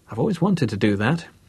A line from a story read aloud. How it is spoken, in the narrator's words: he thought happily in his excitement